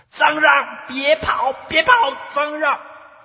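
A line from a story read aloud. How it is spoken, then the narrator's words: Many voices shouting. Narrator (Chinese): 满山遍野啊，都有人在喊着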